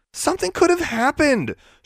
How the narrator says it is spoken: she mimicked, her voice high and sarcastic

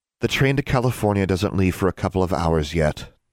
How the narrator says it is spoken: Anna sighed

